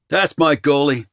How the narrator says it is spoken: I yelled at Walker

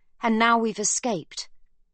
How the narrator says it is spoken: she tells him firmly

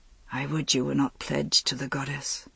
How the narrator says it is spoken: He whispered

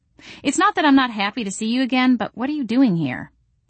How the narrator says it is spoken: I asked

